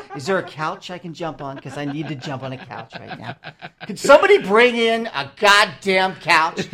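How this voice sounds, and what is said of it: Tom Cruise impression. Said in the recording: “your Tom Cruise impersonation”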